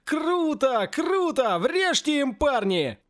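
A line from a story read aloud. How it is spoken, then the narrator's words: Joyful crowd whooping. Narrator (Russian): Другая, не менее многочисленная часть, радостно заулюлюкала и завопила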